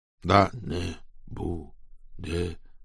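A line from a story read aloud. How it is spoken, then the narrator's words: Dreamy mumbling, several voices. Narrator (Russian): Забормотали несколько слушателей, словно во сне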